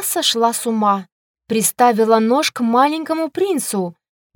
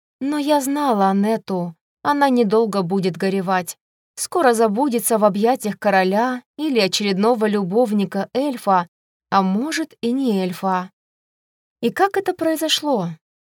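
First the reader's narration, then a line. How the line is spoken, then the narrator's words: Sigh. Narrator (Russian): Вздохнула я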